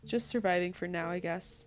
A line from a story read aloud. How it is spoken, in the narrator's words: she finally answered